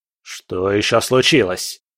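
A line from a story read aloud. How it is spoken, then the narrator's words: Impatient bark. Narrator (Russian): рявкнул Бобшильд с нетерпением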